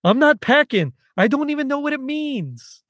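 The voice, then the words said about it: Weak put-on New York accent. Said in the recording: “I can't do a very good New York accent, so I'm sorry here”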